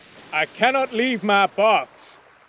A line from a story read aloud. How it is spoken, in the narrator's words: Cornelius shouted again